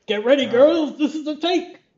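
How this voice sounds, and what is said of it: Ben Grimm cartoon character voice. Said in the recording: “doing a voice ... It's a good Ben Grimm. I always think it's Ben Grimm ... It kind of sounds like from like a book and record”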